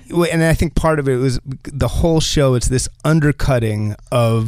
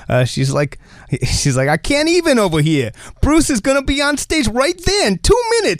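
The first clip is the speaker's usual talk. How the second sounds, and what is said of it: Jersey accent. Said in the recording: “I can do a Jersey accent because I'm from Jersey”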